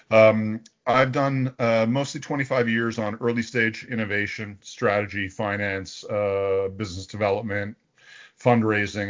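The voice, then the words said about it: Canadian accent. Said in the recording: “as you may hear, I have a Canadian accent, although I'm not Canadian”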